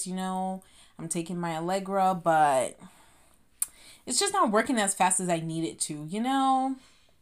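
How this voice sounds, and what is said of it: Slightly nasal, congested voice. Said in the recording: “I sound a little nasally”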